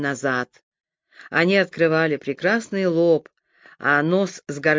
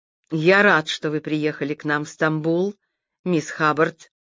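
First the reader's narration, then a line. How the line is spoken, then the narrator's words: Plain. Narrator (Russian): сказал доктор Эрим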